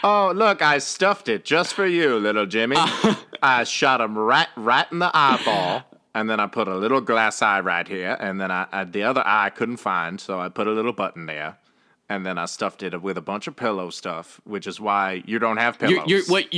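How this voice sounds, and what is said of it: Accent like Kevin Kline's Wild Wild West character. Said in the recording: “You're talking in that accent, it's reminding me of the Wild Wild West, the Kevin Kline character.”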